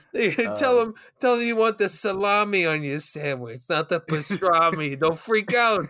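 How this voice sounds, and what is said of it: Put-on New York accent. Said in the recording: “I'm glad you do the New York accent ... That's how like all New Yorkers sound. You're pretty close.”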